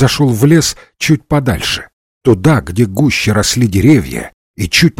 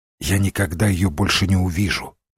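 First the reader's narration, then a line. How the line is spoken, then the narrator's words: Whispered. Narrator (Russian): прошептал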